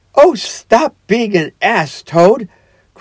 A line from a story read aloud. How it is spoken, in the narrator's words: cried the mole despairingly